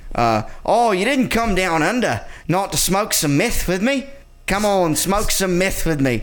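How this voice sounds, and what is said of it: Put-on Australian accent, leaning Kiwi. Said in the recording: “my favorite thing to do though is always Australian, but lately my Australian has been even becoming a little more Kiwi ... mine sounds more Kiwi, I think.”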